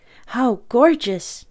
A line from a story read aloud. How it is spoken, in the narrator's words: I exclaimed